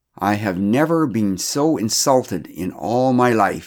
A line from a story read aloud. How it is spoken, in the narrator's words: he said loudly